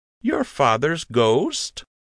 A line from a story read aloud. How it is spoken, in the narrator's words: Lund continued slowly